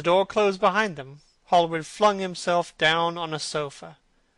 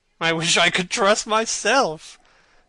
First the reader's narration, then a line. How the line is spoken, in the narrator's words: said Lord Henry, laughing